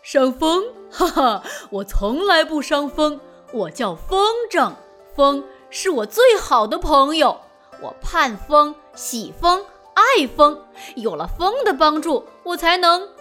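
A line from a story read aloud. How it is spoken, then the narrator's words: Chuckling. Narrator (Chinese): 大蜈蚣呵呵一笑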